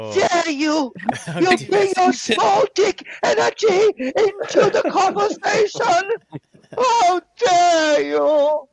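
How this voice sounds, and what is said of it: Imitates another person's voice. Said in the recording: “you got a good Greta impression.”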